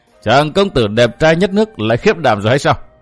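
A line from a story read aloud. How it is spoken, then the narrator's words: Gleeful cackling laughter. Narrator (Vietnamese): Hắc Diệu Quân thích chí bật cười khanh khách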